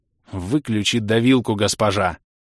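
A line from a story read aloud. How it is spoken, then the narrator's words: Angry snap. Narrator (Russian): Зло огрызнулся я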